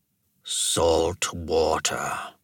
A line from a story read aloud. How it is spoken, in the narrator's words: Karno muttered